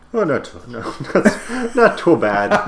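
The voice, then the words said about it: Bad put-on Irish accent. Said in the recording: “What accent is that?... It's a really bad Irish accent.”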